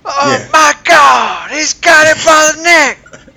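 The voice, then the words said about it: Wrestling commentator impression. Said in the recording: “Can I get a Jim Ross here ... Can we get a Jim Ross?”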